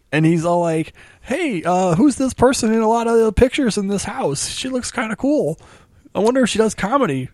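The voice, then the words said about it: Imitates another person's voice. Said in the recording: “That's a really good my parents impression right there.”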